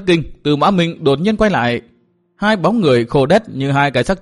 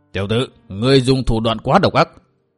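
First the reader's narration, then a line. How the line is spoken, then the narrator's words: Icy cold voice. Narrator (Vietnamese): giọng nói lạnh lùng như băng tuyết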